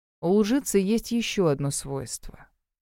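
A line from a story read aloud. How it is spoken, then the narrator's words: Soft addition. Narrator (Russian): мягко добавил Гроув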